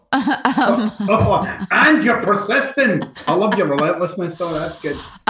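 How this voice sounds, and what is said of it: Scottish Glasgow accent. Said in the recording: “I love your accent. ... Glasgow, Scotland.”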